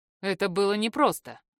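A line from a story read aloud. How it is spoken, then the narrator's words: Smirk. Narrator (Russian): хмыкнул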